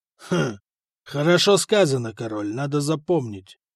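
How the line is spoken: Grumbled. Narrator (Russian): пробурчал Актар

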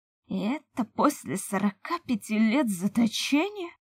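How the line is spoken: Anguished laughter, death spirit. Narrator (Russian): С надрывом в голосе расхохотался Дух Смерти

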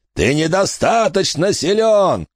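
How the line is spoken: Shouting. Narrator (Russian): кричал Фальконер

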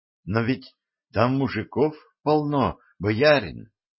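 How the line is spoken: Uncertain young man objecting. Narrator (Russian): неуверенно возразил юноша

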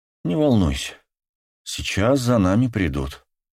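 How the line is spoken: Calm even voice. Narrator (Russian): ровным голосом сказал Рикардо маленькому Матео

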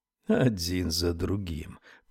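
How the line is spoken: Muttered. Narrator (Russian): пробормотал Яф

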